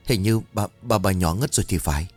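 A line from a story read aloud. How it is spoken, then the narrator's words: Stammering servants. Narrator (Vietnamese): mấy tên gia nhân miệng lắp bắp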